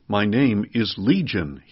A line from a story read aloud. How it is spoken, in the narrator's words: he replied